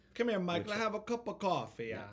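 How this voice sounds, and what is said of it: Northern New Jersey Italian-American accent. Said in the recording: “Northern Jersey ... An Italian ease or accent ... There was always that thing at the end of the word.”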